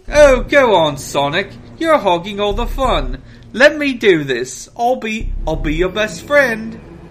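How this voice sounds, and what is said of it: Put-on British accent. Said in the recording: “how's that British accent going for you?”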